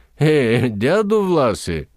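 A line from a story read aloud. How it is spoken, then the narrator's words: Young woman laughing. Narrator (Bulgarian): засмя се една булка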